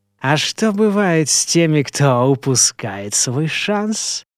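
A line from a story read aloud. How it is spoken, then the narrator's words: Mocking, clearly enunciated drawl. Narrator (Russian): Издевательски протянул его собеседник так, чтобы Альфред мог расслышать каждое его слово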